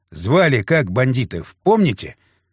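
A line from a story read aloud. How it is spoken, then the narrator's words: Old man's soft laugh. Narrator (Russian): Седой гравер тихонько рассмеялся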